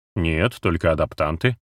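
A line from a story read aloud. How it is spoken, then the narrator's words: Wry snort. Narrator (Russian): хмыкнул Тибериус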